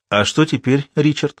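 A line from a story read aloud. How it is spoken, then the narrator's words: Plain. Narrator (Russian): спросила Элли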